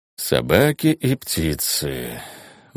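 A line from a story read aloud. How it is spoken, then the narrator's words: Weary sigh. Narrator (Russian): устало вздохнул Дейт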